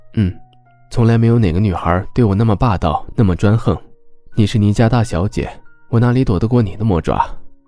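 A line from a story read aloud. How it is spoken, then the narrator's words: Soft laugh, tender, doting. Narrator (Chinese): 周伯言轻笑出声，笑意温柔，满是宠溺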